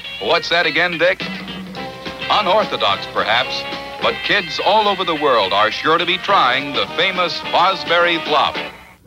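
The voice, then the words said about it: Old-fashioned sports announcer voice. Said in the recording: “this is what you had to sound like in order to be an announcer back then ... needed that announcer voice”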